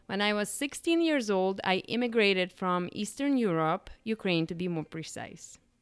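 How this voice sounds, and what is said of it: Non-native English accent. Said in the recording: “You have also probably figured out by my accent that I was not born here.”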